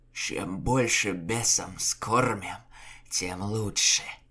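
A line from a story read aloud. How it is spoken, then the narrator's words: Wild hoarse rasp. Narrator (Russian): Лукьян, расхристанный, залитый человеческой кровью, прохрипел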